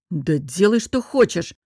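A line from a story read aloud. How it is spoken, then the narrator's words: Snapped. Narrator (Russian): огрызнулся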